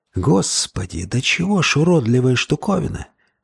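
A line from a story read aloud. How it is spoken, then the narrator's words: Whisper. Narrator (Russian): прошептал Джексон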